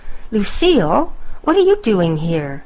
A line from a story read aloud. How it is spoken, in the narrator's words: exclaimed Thunder